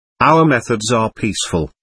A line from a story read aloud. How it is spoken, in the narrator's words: answered